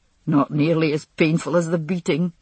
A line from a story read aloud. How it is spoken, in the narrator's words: he said, laughing